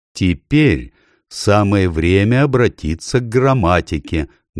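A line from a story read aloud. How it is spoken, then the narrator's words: Loud. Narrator (Russian): громко сказал доктор Корнелиус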